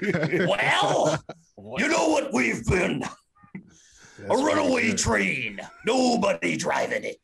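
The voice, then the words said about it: Raspy wrestler voice, Minnesota accent. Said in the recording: “attempting to do Hawk ... That's a very good Hawk. ... Spot on. ... just a really raspy voice with a Minnesota accent.”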